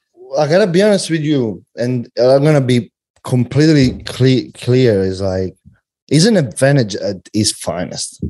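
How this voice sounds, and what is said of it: Strong accent, hard to understand. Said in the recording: “who I can't even understand ... that accent”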